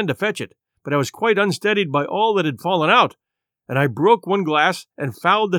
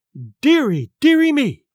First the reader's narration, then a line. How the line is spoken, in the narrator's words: cried my mother